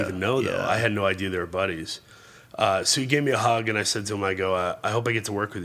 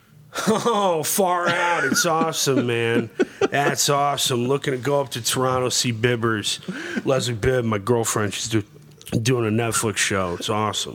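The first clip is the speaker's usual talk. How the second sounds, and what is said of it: Imitates another person's voice. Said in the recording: “your Sam Rockwell impression”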